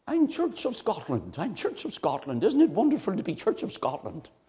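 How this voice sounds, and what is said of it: Weak put-on Scottish accent. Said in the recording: “I'm not a very good Scottish accent”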